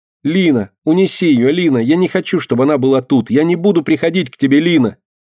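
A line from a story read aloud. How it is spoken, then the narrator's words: Small creature crying out. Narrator (Russian): кричала мышка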